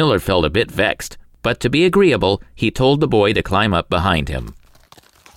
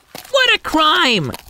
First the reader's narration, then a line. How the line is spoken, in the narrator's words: cried one